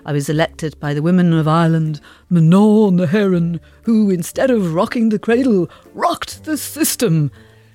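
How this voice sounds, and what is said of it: Imitates another person's voice. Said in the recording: “that absolutely superb impression”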